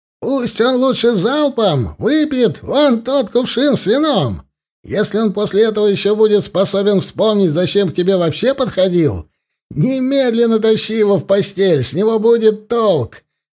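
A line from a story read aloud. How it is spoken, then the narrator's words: Shouted. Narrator (Russian): крикнул кто-то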